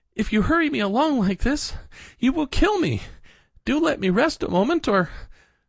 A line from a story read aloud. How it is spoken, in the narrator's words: at last he gasped out